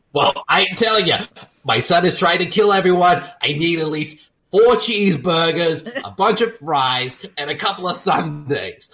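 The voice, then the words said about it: Put-on New York accent. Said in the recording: “I got a New York accent.”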